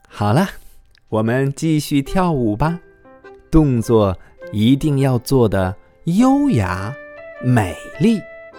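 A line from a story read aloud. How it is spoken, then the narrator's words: Smiling teacher. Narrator (Chinese): 羚羊老师笑着说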